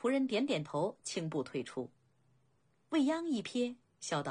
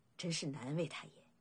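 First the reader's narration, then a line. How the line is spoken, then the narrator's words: Sighing. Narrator (Chinese): 未央叹道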